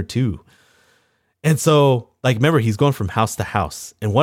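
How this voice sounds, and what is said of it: Usual voice. Nothing is said of it.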